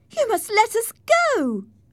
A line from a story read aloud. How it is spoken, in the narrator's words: cried Catherine